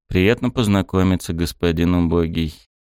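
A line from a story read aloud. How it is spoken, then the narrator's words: Calm reply. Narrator (Russian): спокойно отозвался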